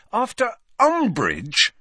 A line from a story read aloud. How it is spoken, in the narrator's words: said Harry angrily